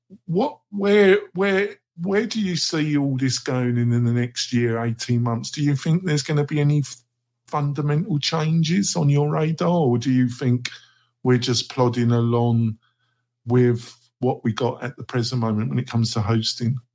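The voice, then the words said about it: Speaks with a noticeable accent. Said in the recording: “I love your accent”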